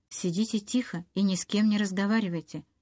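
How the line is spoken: Hurried undertone. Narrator (Russian): торопливо сказал он вполголоса

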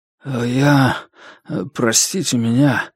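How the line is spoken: Mumbling. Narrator (Russian): забормотал он

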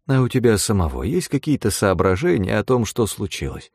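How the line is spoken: Soft question. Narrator (Russian): мягко поинтересовался Эрхазеппа

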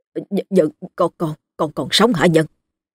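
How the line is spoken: Frightened stammer. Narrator (Vietnamese): Ông Châu hoảng hồn, cố kìm nén sự sợ hãi, miệng lắp bắp

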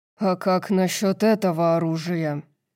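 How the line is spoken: Growling. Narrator (Russian): Снова прорычал он

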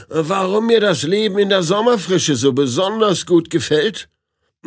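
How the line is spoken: Loud. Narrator (German): sagte er laut

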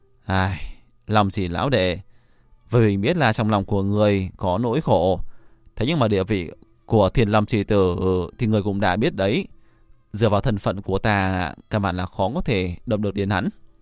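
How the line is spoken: Troubled sigh. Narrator (Vietnamese): Ngao Húc lộ ra vẻ làm khó, hắn thở dài

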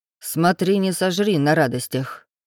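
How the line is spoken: Grumbling. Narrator (Russian): пробурчал сосед

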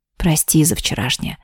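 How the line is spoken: Hoarse whisper. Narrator (Russian): хрипло прошептал Тейлор

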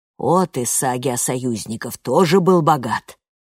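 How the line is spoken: Muttered. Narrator (Russian): пробормотала Сигридюр

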